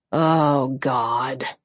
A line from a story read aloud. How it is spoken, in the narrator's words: he groaned